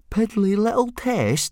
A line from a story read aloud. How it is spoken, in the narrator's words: said Fishlegs indignantly